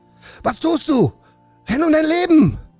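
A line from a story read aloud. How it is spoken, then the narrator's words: Screamed at someone. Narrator (German): schrie Kai Weiß ihn an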